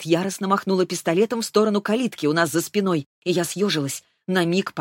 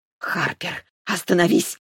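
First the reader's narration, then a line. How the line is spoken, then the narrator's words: Hissed through clenched teeth. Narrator (Russian): прошипела Шарлотта сквозь стиснутые зубы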